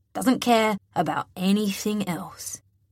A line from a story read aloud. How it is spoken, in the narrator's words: he drawls